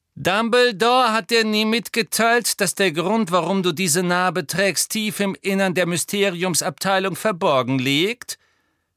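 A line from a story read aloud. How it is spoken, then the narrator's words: Mocking. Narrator (German): höhnte Malfoy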